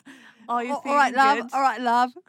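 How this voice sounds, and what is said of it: Put-on cockney London accent. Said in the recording (Norwegian): “London-aksenten ... cockney”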